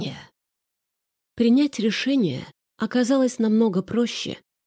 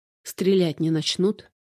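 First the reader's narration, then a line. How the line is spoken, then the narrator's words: Plain question. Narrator (Russian): спросил Леша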